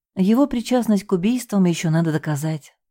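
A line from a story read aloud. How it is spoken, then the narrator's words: Sighing. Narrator (Russian): вздохнула я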